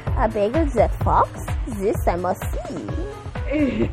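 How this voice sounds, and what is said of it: Bad put-on French accent. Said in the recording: “I have the bad accent... Now I'm French”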